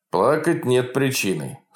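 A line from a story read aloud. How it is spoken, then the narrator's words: Stern doctor. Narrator (Russian): строго сказал врач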